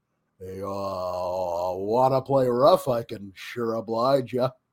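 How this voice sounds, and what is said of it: Bad imitation of a cowboy voice. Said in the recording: “my bad impression of Johnny Five's impression of John Wayne”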